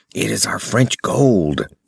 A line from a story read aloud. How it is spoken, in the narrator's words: whispered the director